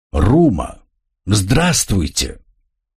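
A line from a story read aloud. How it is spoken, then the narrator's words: Joyful. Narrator (Russian): радостно что-то проговорив, Тро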